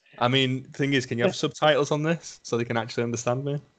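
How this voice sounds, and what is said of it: Thick Lancashire accent. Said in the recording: “With your thick Lancashire accent ... My thick Lancashire accent, yeah. My lovely Lancashire accent ... Dulcet tones”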